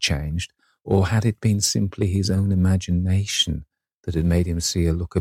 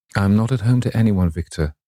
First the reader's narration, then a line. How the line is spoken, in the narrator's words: he said with a sigh